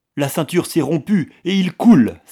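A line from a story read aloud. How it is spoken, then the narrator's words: Exclaimed. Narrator (French): s'écria-t-il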